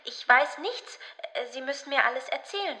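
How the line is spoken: Stammering. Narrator (German): stammelte

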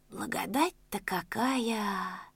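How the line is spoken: Whisper. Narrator (Russian): прошептал щукарь

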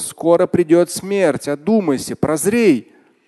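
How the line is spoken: Shouting at top of voice. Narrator (Russian): Нечто кричало во все горло

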